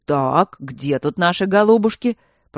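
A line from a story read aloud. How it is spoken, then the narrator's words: Commandant's deep bass voice. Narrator (Russian): пробасил комендантский голос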